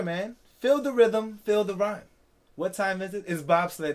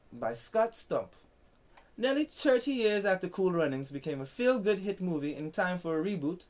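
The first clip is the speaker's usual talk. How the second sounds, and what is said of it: Put-on Jamaican accent. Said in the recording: “Let me try to do a Jamaican accent.”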